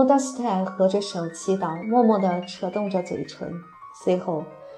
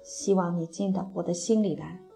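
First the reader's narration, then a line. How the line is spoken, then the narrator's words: Whispered prayer. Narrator (Chinese): 克里斯托弗 低声祷告说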